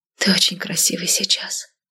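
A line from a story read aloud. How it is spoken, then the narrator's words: Whispered. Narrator (Russian): прошептала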